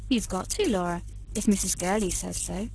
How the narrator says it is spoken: expostulated the kindly governess

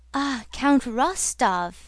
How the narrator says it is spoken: exclaimed Pierre joyfully

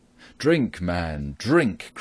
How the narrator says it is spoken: cried Robin

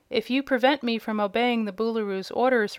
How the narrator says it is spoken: returned the boy quietly

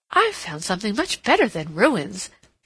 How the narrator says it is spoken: she exclaimed

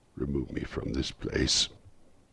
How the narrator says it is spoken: said Scrooge in a broken voice

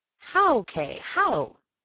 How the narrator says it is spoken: He said eagerly

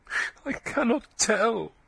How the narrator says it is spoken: she said desperately through her sobbing

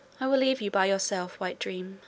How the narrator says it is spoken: I said

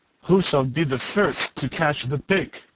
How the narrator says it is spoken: the pirates … laughing with glee and saying one to another

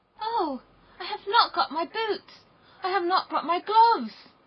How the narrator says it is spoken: cried little Gerda

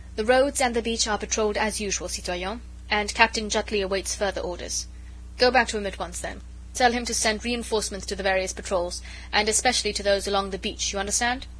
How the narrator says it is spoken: Chauvelin spoke curtly and to the point

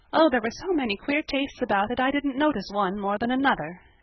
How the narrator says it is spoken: answered Felicity wearily

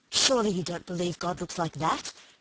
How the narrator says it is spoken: she said impatiently

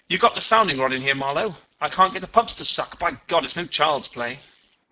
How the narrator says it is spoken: He said excitedly

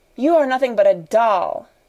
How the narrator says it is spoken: she cried

